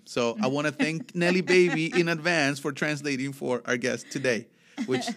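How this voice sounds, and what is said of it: Thick Spanish accent. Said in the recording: “my thick accent and my brain thinking in Spanish”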